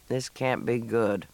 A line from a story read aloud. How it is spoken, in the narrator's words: Matt muttered